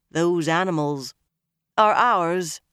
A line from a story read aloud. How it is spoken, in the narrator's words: Nynaeve said firmly